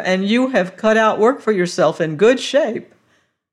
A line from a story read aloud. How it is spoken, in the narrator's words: cried the doctor